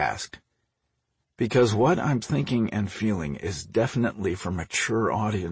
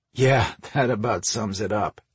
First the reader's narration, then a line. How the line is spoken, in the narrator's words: he chuckled